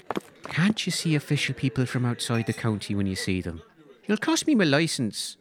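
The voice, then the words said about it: Put-on Irish accent. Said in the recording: “My Irish accent licence. You don't think this comes naturally, do you?”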